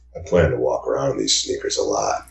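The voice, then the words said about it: Nice low sincere voice. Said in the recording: “I can talk in a nice low voice.”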